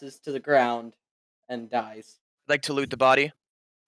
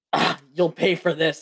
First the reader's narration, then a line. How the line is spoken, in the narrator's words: The kobold yells